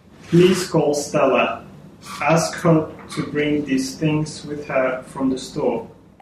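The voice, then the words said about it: Russian-accented English. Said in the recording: “speaking Russian ... When he arrived, he sounded like this. ... that was a foreign accent”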